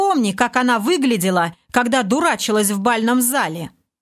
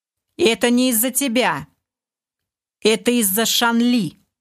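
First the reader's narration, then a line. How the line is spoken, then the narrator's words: Plain. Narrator (Russian): ответил лорд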